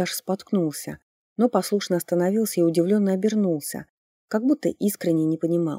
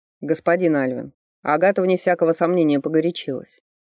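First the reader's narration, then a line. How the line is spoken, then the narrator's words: Cold. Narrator (Russian): холодно произнес Фарлей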